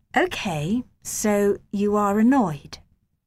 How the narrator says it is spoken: said Mrs

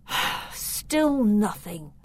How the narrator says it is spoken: he sighed

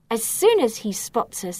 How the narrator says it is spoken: he shouts

